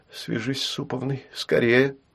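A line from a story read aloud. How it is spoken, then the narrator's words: Whispered. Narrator (Russian): прошептала она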